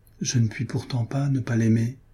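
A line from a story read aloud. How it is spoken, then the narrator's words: Sad inner thought. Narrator (French): pensa-t-il en s'éloignant tristement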